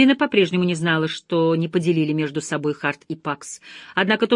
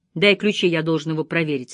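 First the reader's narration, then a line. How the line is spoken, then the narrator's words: Curt. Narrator (Russian): отрывисто сказал Харт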